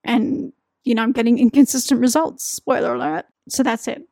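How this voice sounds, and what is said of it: Strained voice, losing his voice. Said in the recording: “I'm losing my voice.”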